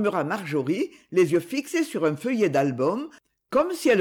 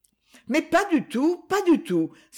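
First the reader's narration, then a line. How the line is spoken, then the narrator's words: Exclaimed. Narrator (French): s'écria Lily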